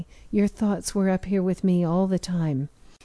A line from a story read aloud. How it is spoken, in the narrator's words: she interrupted softly